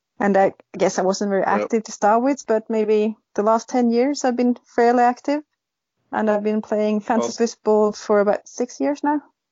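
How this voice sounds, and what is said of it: Scottish accent, woman. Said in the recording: “it's mad how the Scottish accent came out when you were talking about football there ... It's coming through ... who's the Scottish lady that you have on?”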